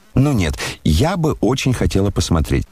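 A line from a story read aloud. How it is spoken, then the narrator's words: Plain. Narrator (Russian): сказала Аделаида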